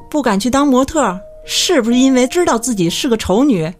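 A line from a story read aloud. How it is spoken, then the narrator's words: Furious question. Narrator (Chinese): 盛怒之下，阿玲问富江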